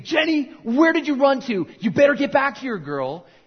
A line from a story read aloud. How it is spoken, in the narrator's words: Her father is screaming